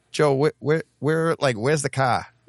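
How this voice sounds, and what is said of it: Thick exaggerated Boston accent. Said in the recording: “the Boston accent's so bad ... when you go too thick ... All right, yeah, that was too thick”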